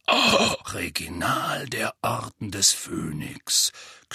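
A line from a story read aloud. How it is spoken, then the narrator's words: Growl. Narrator (German): knurrte Moody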